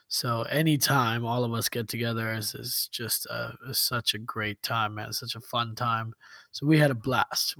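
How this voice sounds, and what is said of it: Hoarse, strained voice. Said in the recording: “That's how I lost my voice.”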